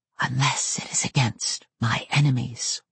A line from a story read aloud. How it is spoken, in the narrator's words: whispered a soundless voice in my head that might have been mine but felt like Coyote's